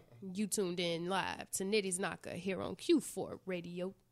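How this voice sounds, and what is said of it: Slow smooth late-night radio voice. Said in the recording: “I could take it slow ... going to do my Quiet Storm voice”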